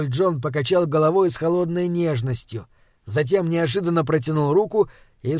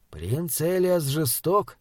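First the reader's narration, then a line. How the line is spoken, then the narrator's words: Muttered. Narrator (Russian): пробормотал Таузер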